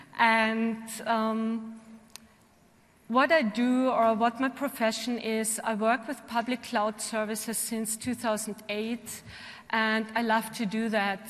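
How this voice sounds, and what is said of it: Austrian-accented English. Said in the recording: “as you can hear from my accent, I'm coming from Austria, so I'm not German, I'm Austrian”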